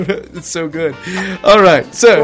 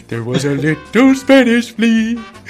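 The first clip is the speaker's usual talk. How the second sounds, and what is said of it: Homer Simpson impression, singing. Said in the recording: “You've got to hear Homer's voice... Homer's version... it's not a bad impression... It's kind of a tough impression”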